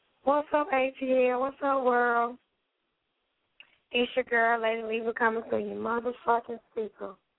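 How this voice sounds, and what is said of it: Raspy, rough voice. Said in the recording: “My voice is a little, yeah, that motherfucker always raspy ... just a little worse than usual”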